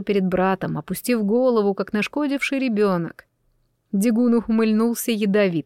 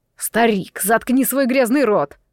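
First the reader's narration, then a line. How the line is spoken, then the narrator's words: Roar. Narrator (Russian): взревел Фокс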